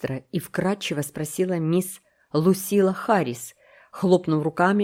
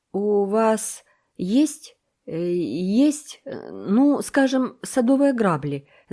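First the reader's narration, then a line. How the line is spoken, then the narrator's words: Stammering question. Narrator (Russian): заикаясь, спросил Мэтью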